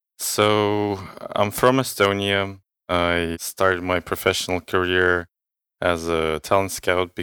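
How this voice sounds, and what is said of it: Soothing foreign accent. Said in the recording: “You have an amazing voice, your accent. It's very, very soothing.”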